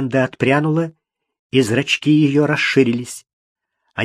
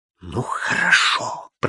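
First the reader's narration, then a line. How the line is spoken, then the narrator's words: Hissing. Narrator (Russian): прошипела она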